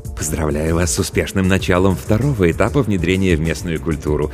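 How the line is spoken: Plain. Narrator (Russian): сказал чиновник Анамна

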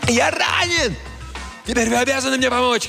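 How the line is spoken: Shouting. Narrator (Russian): кричал Джомфри

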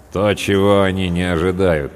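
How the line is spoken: Grim sergeant. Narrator (Russian): мрачно произнес третий сержант

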